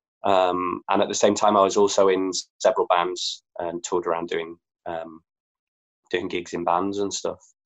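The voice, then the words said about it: Leeds English accent. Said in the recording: “I'm from Leeds, if you can't tell by the accent.”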